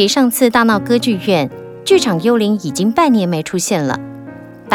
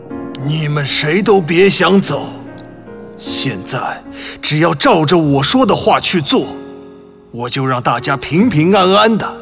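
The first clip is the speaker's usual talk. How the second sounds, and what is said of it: Hoarse, menacing phantom voice. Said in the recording (Chinese): “他身穿红衣，戴着面具，用沙哑的声音说”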